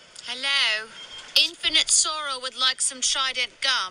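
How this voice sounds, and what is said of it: Good put-on English accent. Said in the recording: “That's a really good English accent”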